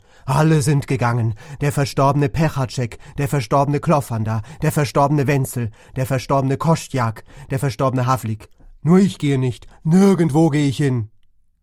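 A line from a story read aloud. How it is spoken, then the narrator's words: Scream. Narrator (German): schrie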